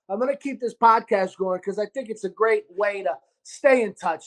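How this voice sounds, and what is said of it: New York Sicilian-tinged accent. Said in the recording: “my beautiful New York, a Sicilian dialect ... it might be my upbringing with Sicilian people ... your accent, what accent is that?”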